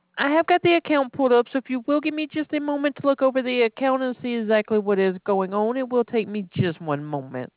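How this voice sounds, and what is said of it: Alabama Southern US accent. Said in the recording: “I love your accent ... I'm originally from Alabama.”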